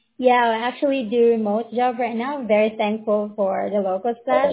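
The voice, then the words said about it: Filipino accent. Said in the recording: “You from the Philippines? ... I have some friends that are Filipino. You have the accent.”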